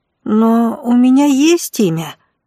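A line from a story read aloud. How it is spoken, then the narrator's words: Confused boy's mumble. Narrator (Russian): растерянно пробормотал паренек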